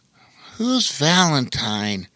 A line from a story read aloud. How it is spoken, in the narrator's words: Opening one eye and then the other, Rowan mumbled